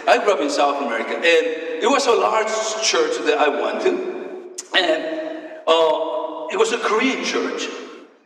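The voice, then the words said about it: Noticeable foreign accent in English. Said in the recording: “I grew up in South America. Okay, that's why I have this weird accent. But it's a good accent”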